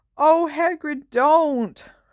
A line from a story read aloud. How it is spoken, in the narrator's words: moaned Hermione